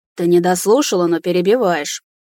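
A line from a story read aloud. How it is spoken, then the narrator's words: Displeased grumbling. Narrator (Russian): недовольно проворчал истукан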